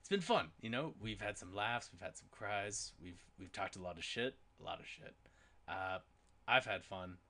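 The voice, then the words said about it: Raspy voice. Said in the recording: “Got my nice raspy voice on.”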